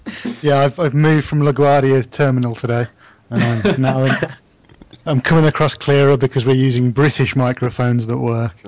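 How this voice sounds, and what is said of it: British accent. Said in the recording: “the British accent ... our British guy”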